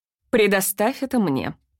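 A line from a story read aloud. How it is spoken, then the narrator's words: Businesslike tone. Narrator (Russian): деловым тоном сказала тетя Джин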